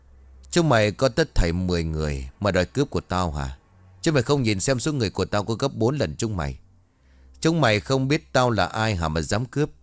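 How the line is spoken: Loud laughing. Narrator (Vietnamese): lão ngửa cổ lên trời rồi cười lớn

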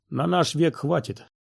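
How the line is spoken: Gloomy reply. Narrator (Russian): мрачно откликнулся Нильд

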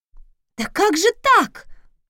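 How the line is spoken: Indignant loud exclamation. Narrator (Russian): с возмущением воскликнула Раиса, мигом вернув силу голоса

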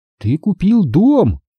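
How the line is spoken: Exclaiming. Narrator (Russian): воскликнул Астри

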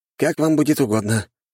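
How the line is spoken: Resigned sigh. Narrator (Russian): вздохнул министр

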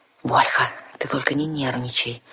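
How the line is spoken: Pleading whisper. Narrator (Russian): умоляюще и совершенно неуместно прошептал Ролар

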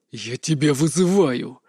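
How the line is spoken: Sudden breathless exhale. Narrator (Russian): вдруг выдохнул Айрт

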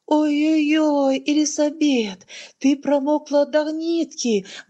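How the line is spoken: Exclamation. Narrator (Russian): воскликнула она

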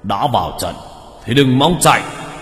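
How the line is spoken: Deep gruff voice. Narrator (Vietnamese): con thủy thi kia, giọng ồm ồm

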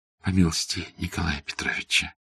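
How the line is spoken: Whisper. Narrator (Russian): шепнула Фенечка

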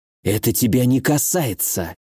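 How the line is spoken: Furious whisper. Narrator (Russian): яростно прошептала Илона

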